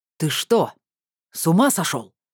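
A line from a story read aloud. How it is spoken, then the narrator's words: Growled. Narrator (Russian): рыкнул мошенник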